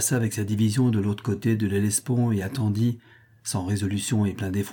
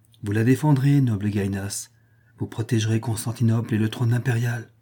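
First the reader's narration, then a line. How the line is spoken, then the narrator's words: Caressing tone. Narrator (French): répondit Eudoxia d'un ton caressant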